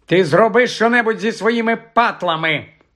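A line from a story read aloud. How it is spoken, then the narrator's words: Snapping. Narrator (Ukrainian): гаркнула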